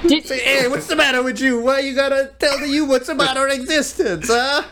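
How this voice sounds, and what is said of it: Put-on New Jersey accent. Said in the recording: “Oh, why do they sound like that? ... Why do they sound like from Jersey? They're all from Jersey. ... From the Bronx.”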